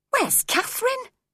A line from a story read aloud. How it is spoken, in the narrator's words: cried sharply